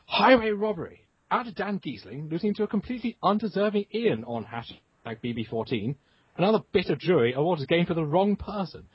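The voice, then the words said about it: Over-the-top British accent. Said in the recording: “best read in an over-the-top British accent ... You do a great British accent!”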